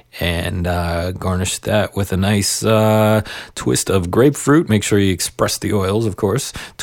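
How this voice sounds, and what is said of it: Hoarse voice, fading from a cold. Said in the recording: “I had that cold last week, and I thought I was over it. But the more I talk here, the more I seem to be losing my voice.”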